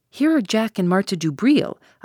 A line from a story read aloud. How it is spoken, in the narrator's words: I exclaimed